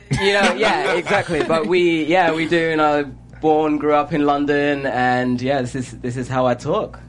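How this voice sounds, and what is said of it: British London accent. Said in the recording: “you really are British. You do have an accent.”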